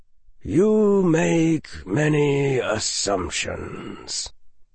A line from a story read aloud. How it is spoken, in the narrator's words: the defense professor said softly